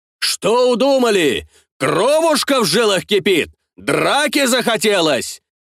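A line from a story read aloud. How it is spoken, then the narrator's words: Shouting while approaching. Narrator (Russian): кричал Картамонов на подходе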